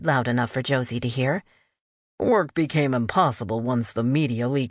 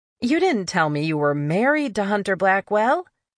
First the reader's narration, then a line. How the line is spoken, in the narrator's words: Josie said with a laugh